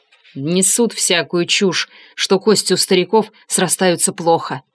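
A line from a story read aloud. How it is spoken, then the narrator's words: Irritated. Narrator (Russian): раздраженно сказал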